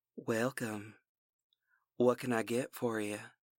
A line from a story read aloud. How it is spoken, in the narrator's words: Her voice was dusky, and I detected the Louisiana accent